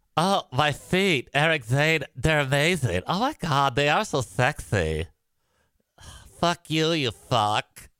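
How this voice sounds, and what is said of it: Imitates another person's voice. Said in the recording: “with that impression”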